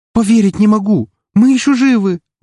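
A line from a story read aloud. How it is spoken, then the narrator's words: Trembling shout, sobbing. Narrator (Russian): выкрикнула Рокси дрожащим голосом и, кажется, всхлипнула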